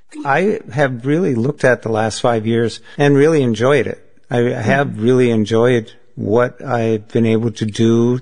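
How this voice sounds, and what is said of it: Thick Minnesotan accent. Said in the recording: “thick Minnesotan accent”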